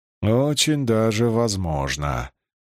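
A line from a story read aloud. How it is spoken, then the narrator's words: Mutter. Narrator (Russian): пробурчал Чернышов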